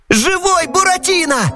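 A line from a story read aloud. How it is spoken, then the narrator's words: Yelling. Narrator (Russian): завопил Пьеро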